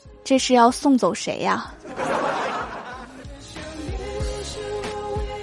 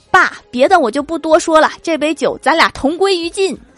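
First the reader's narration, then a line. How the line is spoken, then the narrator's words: Loud, repeated. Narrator (Chinese): 郭大侠第二遍大声来了一句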